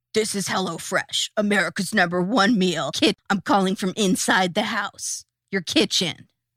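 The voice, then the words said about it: Radio DJ style voice. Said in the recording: “This voice sounds a lot like your DJ voice.”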